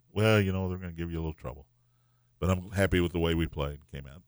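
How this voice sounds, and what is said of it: Monotone impression of John Shire. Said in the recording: “terrible Kenny impersonation ... No, that was John Shire ... he's that monotone?”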